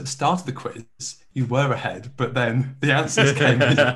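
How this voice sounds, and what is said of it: Imitates another person's voice. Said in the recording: “do my John King voice.”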